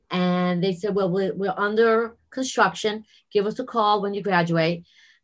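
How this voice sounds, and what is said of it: New York accent. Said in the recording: “New York City, as you could tell by my accent.”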